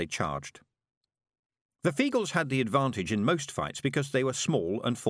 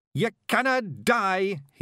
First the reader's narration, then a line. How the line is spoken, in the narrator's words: he yelled